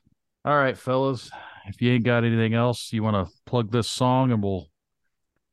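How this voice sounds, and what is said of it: Usual voice. Nothing is said of it.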